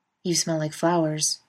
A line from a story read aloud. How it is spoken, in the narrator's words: observes Castiel calmly